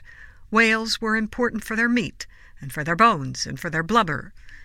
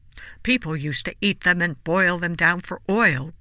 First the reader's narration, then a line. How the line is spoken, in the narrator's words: grumbled Lily's great-uncle Frederick